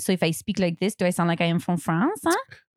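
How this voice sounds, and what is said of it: Weak put-on French accent. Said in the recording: “I can kind of do a French accent, but only a little ... You don't sound like you're from New Jersey.”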